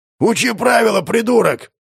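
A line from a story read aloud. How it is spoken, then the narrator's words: Angry hiss under breath. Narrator (Russian): Илья что-то злобно прошипел себе под нос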